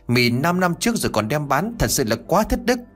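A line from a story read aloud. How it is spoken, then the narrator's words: Huffing, shouting loudly. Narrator (Vietnamese): Minh thở phì phì, trong miệng của nó hét lớn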